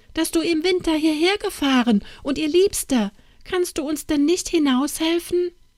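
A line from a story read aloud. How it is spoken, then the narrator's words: Calling out. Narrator (German): rief Anna Barbara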